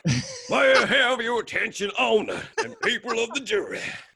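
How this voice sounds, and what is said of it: Put-on Southern US lawyer accent. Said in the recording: “Your accent's great, dude. You're all Southern accent. Amazing... It was kind of like the Southern lawyer”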